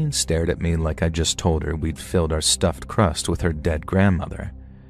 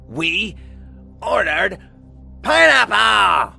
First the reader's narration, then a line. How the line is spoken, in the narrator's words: Colleen shrieked